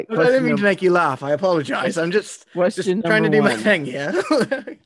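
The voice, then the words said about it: Pirate character voice. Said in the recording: “put on my pirate voice ... We'll answer it in the pirate voice ... I've thrown on this accent”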